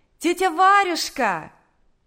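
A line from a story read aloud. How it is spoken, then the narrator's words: Shout from afar. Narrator (Russian): крикнула еще с улицы Наташа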